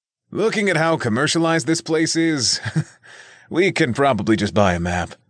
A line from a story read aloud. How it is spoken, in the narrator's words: Reginald observed with a laugh